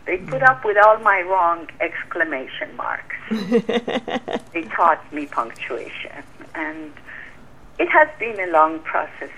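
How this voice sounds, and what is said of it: Non-native accent, slow reading. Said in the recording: “they put up with my accent, because when I would read, I don't read fast, and I'm not always clear”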